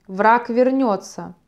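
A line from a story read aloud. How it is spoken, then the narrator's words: Low grating growl. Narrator (Russian): проворчал ярл низким голосом, похожим на скрежет по крепкой шкуре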